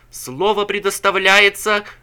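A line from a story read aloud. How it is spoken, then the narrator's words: Shouting. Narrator (Russian): кричал он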